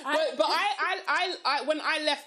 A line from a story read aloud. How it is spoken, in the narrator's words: I cried